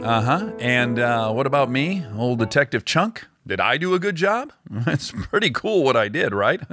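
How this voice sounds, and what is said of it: Deep-voiced comic character voice. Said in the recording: “my deep voice”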